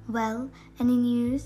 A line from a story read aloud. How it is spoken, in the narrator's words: she anxiously asked Holmes